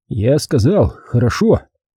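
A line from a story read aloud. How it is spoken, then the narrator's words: Grumbling with mouth full. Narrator (Russian): Впиваясь зубами в сочный кус мяса, пробурчал Лаптев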